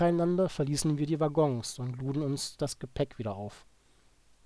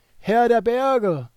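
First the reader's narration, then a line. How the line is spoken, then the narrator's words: Loud call in Czech. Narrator (German): rief laut auf Tschechisch laut in den Raum hinein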